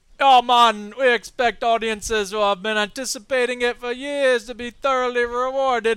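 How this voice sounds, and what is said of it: Put-on Jamaican accent. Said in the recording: “accent please. ... Jamaican.”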